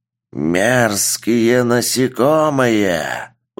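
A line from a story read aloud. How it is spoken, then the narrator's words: Monster's growl. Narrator (Russian): Прорычал монстр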